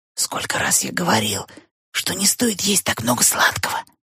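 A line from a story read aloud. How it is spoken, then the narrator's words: Whispered. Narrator (Russian): шепотом сказал он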